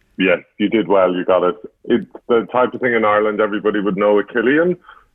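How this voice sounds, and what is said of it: Irish accent. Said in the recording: “It's obviously Irish, given your accent.”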